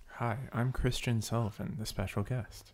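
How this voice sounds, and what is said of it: Put-on NPR radio announcer voice. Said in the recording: “Who suddenly has an NPR voice. ... I don't sound like that”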